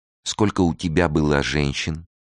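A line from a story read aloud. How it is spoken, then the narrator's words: Plain. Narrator (Russian): спросила она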